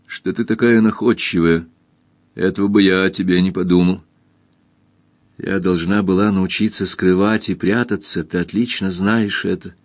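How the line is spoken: Gloomy. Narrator (Russian): мрачно сказала она

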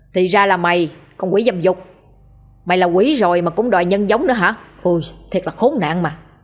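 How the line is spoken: Harsh sneering laugh. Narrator (Vietnamese): Lão Tam cười gằn giọng

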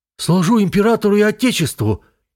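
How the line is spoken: Dazed barking shout. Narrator (Russian): гаркнул обалдевший от стремительности своей карьеры лейтенант

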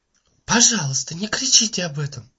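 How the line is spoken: Close whisper. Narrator (Russian): прошептала мисс Таррент

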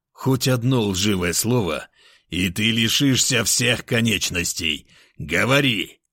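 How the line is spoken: Angry through teeth. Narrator (Russian): зло процедил

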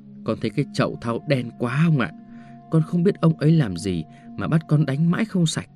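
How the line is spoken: Agitated whisper. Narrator (Vietnamese): thằng đầy tớ chạy lên nhà trên, trợn mắt trợn mũi thì thào với ông

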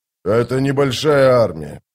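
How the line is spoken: Grumble. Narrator (Russian): проворчал Брухалиан

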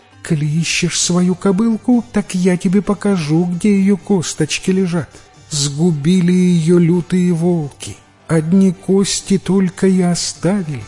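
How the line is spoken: Tiny thin voice. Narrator (Russian): тоненьким голосочком ему говорит

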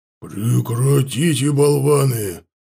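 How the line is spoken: Creature growling. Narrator (Russian): прорычал ворк

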